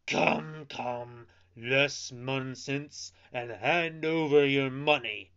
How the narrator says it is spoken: the two brigands cried menacingly

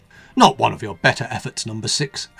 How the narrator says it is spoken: exclaimed number two derisively

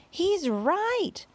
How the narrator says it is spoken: they cried

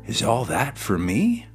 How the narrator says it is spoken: he exclaimed

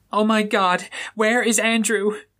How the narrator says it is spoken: Daphne Ottoman screams in worry, now reduced to a panic attack, frantically breathing fast

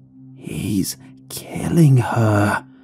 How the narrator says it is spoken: the voice whispered harshly

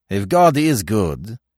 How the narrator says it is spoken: cried Francois, harshly, and his voice came plainly to the priest's ears

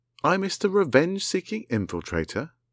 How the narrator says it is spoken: Vanilla Sharp exclaimed

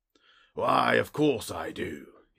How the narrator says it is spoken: he wheezed

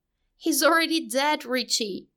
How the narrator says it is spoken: Bill shouted at him all of a sudden

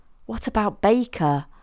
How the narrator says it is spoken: Amelia struggled to stifle her laugh

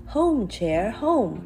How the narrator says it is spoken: Chinky cried

